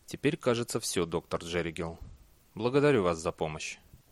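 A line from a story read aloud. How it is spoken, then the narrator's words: Quiet voice. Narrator (Russian): Бейли тихим голосом сказал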